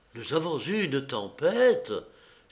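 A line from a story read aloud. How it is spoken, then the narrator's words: Exclaimed. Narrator (French): s'écria M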